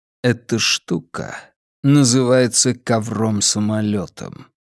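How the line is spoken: Quiet. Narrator (Russian): тихо проговорил

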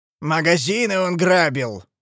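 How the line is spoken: Growling. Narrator (Russian): зарычал Большой Гонзо

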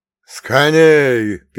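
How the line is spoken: Old man shouting. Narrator (Russian): первым заорал дед

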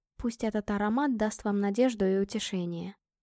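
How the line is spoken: Whispered. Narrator (Russian): прошептала я

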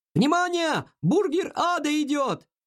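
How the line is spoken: Shouted. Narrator (Russian): Затем кто-то крикнул

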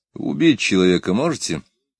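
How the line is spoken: Plain. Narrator (Russian): спросил ГБшник

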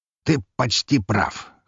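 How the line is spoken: Amused snort. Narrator (Russian): хмыкнул князь

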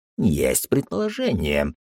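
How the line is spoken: Grumbling. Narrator (Russian): проворчал Пердик

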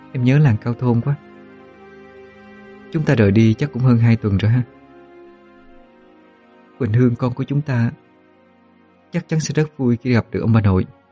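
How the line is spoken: Soft speech. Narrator (Vietnamese): Hương khẽ nói

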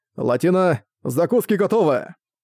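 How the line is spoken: Booming shout. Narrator (Russian): Раскатисто крикнул Кеннет

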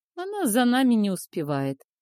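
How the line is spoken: Cheeky chuckle. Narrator (Russian): хохотнул наглый лис

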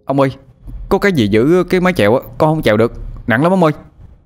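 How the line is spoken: Shouting. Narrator (Vietnamese): Tôi la lên

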